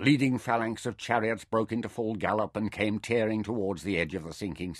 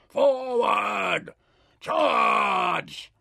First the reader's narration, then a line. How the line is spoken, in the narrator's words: Chok his bull voice roared out triumphantly and echoed from the dune walls